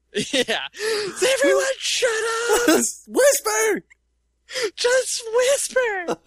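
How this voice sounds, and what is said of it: Screaming tabloid creature voice. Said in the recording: “he's screaming in that picture ... that's my Bat Boy impersonation”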